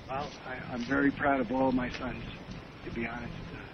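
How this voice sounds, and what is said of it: Hoarse voice, laryngitis. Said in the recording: “As you can probably tell, I have laryngitis myself.”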